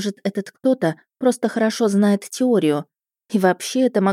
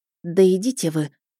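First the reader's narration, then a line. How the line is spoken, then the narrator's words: Tired. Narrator (Russian): устало сказала я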